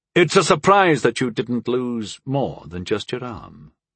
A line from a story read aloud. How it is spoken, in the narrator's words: Clavellus finally retorted in a controlled voice